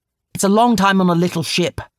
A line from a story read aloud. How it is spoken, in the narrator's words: snapped Rami